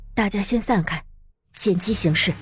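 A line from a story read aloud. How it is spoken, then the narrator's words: Low, firm voice. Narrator (Chinese): 林鸾沉声道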